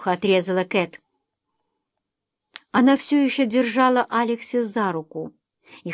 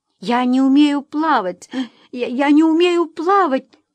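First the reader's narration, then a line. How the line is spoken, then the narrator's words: Tearful repeating. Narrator (Russian): приговаривала она сквозь слезы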